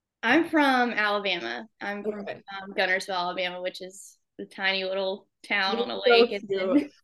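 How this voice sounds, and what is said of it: Southern American accent. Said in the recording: “I didn't know you had a Southern accent”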